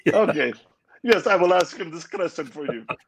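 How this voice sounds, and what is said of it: Put-on Indian-sounding accent. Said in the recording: “that sounds more like an Indian accent, I apologize. My Iraqi accent's not good... I use Indian accent for everything”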